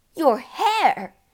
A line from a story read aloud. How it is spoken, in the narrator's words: was shrieking